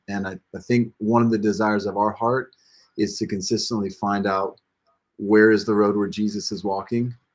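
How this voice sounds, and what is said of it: American accent. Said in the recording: “can tell from the accent, we come from the United States”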